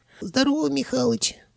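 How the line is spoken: Squeaky voice. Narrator (Russian): пропищал левый голова

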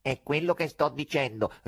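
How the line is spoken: Nasal voice. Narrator (Italian): ribadì il rosso con la sua voce nasale

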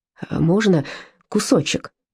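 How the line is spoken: Timid. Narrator (Russian): робко спросили братья

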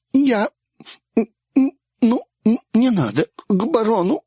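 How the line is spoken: Sobbing. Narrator (Russian): всхлипнула

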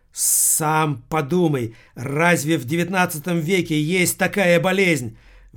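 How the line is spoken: Very loud. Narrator (Russian): В отличие от Александра, Эрика говорила очень громко

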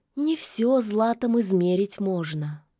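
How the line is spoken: Sad sigh. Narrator (Russian): грустно вздохнула ведьма

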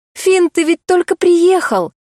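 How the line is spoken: Woman exclaiming. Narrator (Russian): воскликнула

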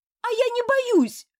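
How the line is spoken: Yelled. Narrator (Russian): заорал мотылек

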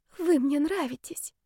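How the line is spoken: Unhappy whisper. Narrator (Russian): прошептала девушка с самым несчастным видом

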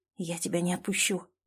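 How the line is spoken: Whisper. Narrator (Russian): прошептал Клим

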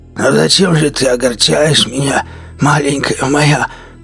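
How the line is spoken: Hoarse voice. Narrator (Russian): Голос Ганса стал хриплым

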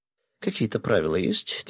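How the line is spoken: Quiet question. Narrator (Russian): тихо спросил я

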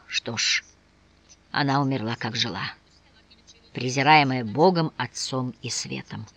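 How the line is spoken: Sighing whisper. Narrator (Russian): Он глубоко вздохнул и прошептал

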